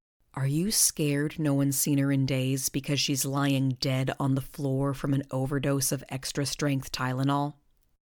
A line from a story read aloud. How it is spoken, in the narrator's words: whispered